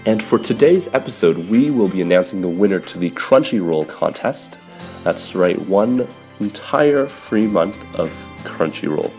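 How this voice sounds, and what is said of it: Slightly sick, congested voice. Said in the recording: “Please don't mind my voice, I have a little bit of a cold”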